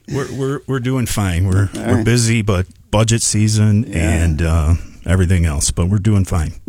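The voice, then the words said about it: Polished radio-announcer voice. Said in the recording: “You have a radio voice”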